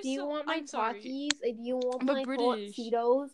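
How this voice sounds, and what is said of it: Put-on accent, not done well. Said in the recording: “I'm giving them an accent, yes. ... I don't know how to do verse accent very well.”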